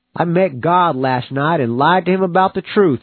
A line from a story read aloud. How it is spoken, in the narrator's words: chuckled